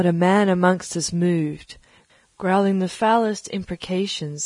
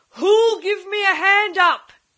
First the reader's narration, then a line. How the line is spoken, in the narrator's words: he roared